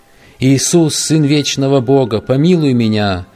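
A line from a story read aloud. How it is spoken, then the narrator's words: Long desperate screaming in agony. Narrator (Russian): Долго и истошно кричал Сервет из пламени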